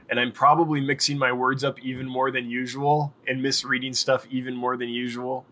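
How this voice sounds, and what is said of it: Rough, tired voice. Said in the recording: “My voice is a little rough. I'm exhausted.”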